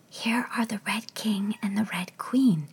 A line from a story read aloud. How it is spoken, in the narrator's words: Alice said in a whisper for fear of frightening them